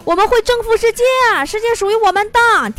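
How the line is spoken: Shouted slogan. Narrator (Chinese): 我们领导大喊口号

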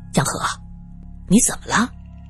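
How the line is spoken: Startled low question. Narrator (Chinese): 杜明吓了一跳，他低声问道

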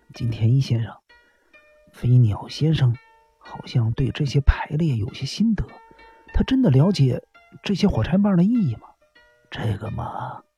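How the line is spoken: Low voice. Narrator (Chinese): 日比野警官低声说道

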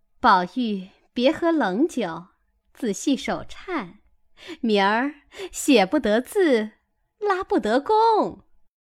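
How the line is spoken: Laughing. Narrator (Chinese): 凤姐儿便笑道

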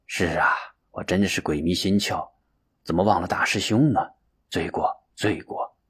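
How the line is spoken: Long sigh. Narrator (Chinese): 法如长叹一声，说道

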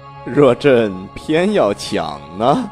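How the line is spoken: Calm, composed, suppressed laughter. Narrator (Chinese): 他勉强止住笑，气定神闲地问道

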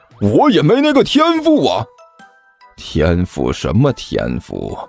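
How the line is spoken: Scoffing. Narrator (Chinese): 还真道士嗤笑了一声

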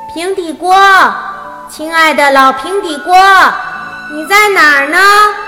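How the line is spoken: Calling out loudly. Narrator (Chinese): 边走边大喊着平底锅先生的名字

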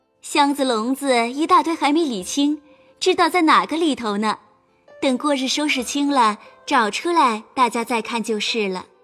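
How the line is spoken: Laughing. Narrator (Chinese): 宝钗笑道

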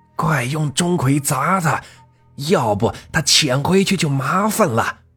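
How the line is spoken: Shouting. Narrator (Chinese): 张法师呼喊着

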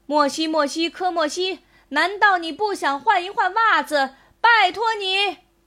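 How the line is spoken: Loud announcement. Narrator (Chinese): 大声发表声明

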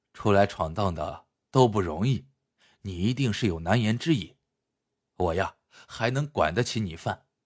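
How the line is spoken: Smiling. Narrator (Chinese): 武顺笑笑，说道

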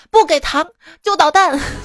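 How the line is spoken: Grumpy child shouting. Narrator (Chinese): 小宝贝脾气很大，大喊

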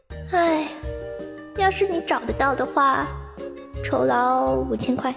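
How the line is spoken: Feigned sigh. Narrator (Chinese): 又装模作样的叹了口气，说

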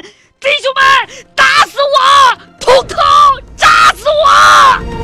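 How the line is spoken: Hoarse desperate scream. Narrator (Chinese): 梁文强声嘶力竭的一声大喊

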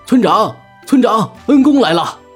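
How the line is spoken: Bellowing shout. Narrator (Chinese): 大牛便扯着嗓子喊道

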